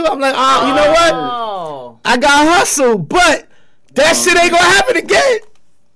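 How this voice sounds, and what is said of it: Loud, yelling voice. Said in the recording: “I'm yelling.”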